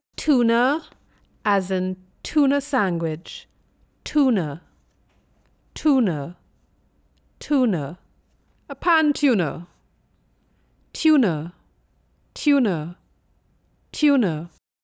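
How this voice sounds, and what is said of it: Convent accent. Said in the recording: “This is an example of a convent accent.”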